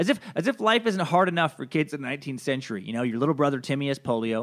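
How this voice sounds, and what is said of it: Usual voice. Nothing is said of it.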